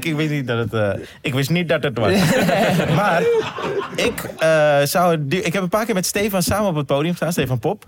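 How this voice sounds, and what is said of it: Dutch regional accent. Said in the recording (Dutch): “Dit is jouw accent, toch?... Zaans... Hindoestaanse familie... Ik denk dat wel te horen.”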